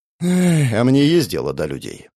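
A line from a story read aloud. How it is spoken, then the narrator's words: Sighing. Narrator (Russian): вздохнул я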